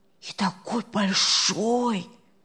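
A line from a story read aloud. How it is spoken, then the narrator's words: Whispering. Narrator (Russian): зашептали с другой стороны кровати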